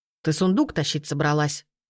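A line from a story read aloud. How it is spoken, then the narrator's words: Angry question. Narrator (Russian): злобно спросил Стужайло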